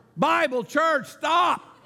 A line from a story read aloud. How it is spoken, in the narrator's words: shouted the man